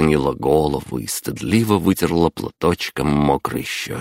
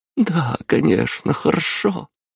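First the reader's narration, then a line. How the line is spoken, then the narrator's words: Mother laughing through tears. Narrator (Russian): сквозь слезы рассмеялась мама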